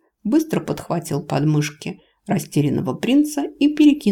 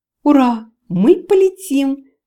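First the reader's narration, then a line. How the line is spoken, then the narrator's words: Excited squeal. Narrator (Russian): визжал Майдрид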